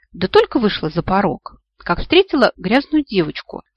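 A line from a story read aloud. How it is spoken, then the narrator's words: Calm woman. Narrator (Russian): спокойно ответила красавица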